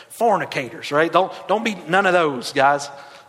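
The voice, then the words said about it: Put-on Southern accent. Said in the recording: “Anytime you say it in Southern accent terms, it's way better.”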